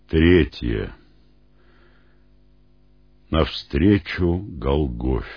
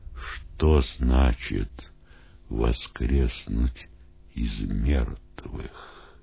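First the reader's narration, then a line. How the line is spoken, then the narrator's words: Students' hesitant whispered questions. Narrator (Russian): Не решаясь обратиться к нему, ученики шепотом спрашивали друг у друга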